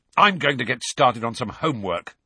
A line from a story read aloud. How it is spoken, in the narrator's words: said Ron angrily